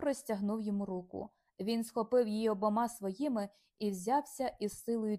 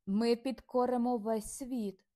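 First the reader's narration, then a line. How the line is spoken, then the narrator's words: Exclaimed. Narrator (Ukrainian): вигукнув він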